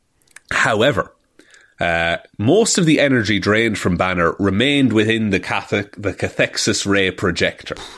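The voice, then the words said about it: Speaks with a noticeable foreign accent. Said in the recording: “It's very tough, especially with my accent.”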